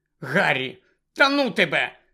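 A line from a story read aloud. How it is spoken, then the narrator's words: Angry. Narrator (Ukrainian): сердито зупинилася Герміона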